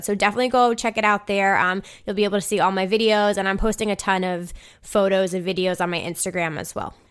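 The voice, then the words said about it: Sick-sounding voice. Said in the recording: “if you couldn't already tell by my voice, ... I got very sick after EDC”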